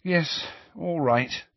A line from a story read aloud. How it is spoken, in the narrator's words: said Hermione wearily